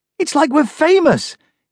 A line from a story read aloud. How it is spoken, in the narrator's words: Grace shrieked